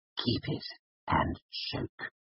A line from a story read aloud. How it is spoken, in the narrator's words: hissed in a low voice